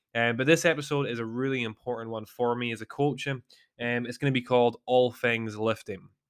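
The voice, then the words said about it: Strained, slightly weird voice. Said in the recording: “my voice sounds a little bit weird. I'm hoping it doesn't crack”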